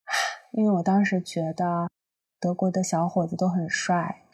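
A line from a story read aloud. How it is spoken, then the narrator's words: Slightly melancholy sigh. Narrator (Chinese): 他一贯的略带忧伤的在那叹口气说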